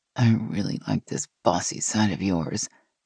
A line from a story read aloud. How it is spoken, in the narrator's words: Gina said with a low growl